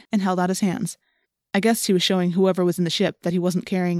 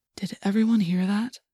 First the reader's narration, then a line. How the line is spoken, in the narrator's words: Tobias whispered